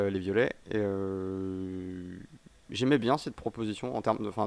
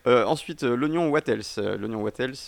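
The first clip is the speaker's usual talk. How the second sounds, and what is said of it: Mock English accent. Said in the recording (French): “peut remarquer mon accent irréprochable”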